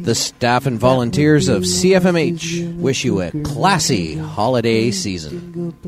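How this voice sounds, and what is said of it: Polished announcer-style radio voice. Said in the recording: “I love that radio voice I had on the go there. That's me, fresh out of journalism school almost”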